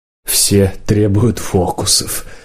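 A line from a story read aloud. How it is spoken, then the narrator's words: Sad voice. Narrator (Russian): печально сказал подорожник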